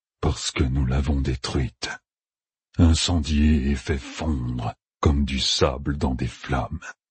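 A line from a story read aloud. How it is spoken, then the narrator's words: Breathy whisper. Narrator (French): souffla Loustérine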